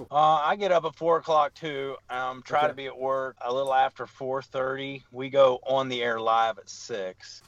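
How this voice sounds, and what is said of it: West Virginia accent. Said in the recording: “I was born and raised in West Virginia ... For the accent. So, yeah. It sticks out a bit.”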